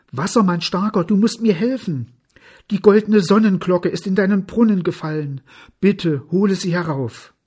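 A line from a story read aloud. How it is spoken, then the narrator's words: Calling out. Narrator (German): rief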